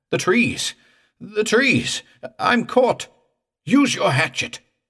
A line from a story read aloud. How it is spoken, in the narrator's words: I cried